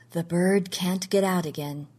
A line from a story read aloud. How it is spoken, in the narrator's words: he said softly